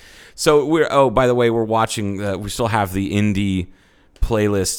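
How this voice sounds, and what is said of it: Usual voice. Nothing is said of it.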